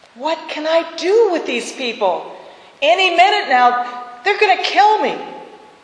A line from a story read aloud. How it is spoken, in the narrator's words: Moses cried out in prayer to God